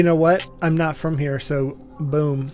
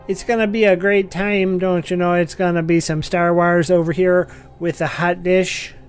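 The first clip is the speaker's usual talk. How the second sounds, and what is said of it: Bad put-on northern Minnesota accent. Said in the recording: “that's the worst northern Minnesota, northern Upper Peninsula accent I've ever heard in my entire life”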